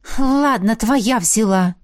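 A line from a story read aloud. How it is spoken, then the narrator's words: Irritated, through teeth. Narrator (Russian): процедила я в раздражении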